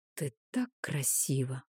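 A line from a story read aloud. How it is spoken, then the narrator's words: Loving whisper. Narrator (Russian): прошептал он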